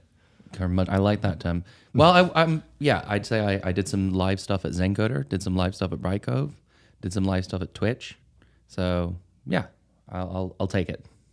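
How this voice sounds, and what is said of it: Noticeable accent. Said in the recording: “He's also got the accent”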